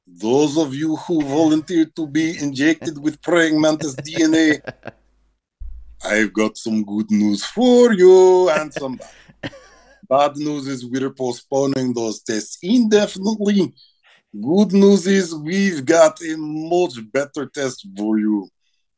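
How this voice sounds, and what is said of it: Put-on fun accent for movie quote. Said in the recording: “Give it a fun accent. A voice”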